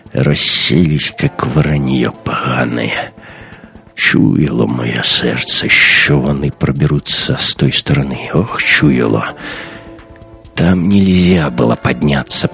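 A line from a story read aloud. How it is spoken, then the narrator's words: Groaning. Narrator (Russian): простонал капитан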